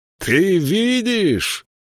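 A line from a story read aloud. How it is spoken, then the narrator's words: Shouted after someone. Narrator (Russian): крикнул ему вслед Элиас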